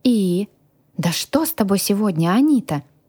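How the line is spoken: Exclaiming. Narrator (Russian): воскликнула девушка

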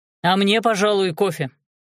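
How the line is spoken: Loud announcement. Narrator (Russian): сообщил громко Крестовский

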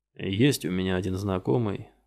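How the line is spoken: Very quiet. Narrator (Russian): сказал очень тихо Килнер

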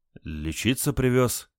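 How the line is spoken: Uncertain. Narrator (Russian): неуверенно ответил Олег

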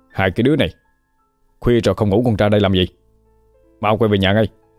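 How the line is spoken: Shouting. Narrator (Vietnamese): quát lên

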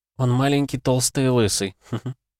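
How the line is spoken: Laughing. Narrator (Russian): рассмеялась Майя

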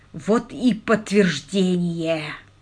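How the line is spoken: Groan. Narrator (Russian): простонал он

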